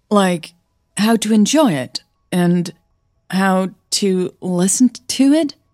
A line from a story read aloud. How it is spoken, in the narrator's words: Hannah stammered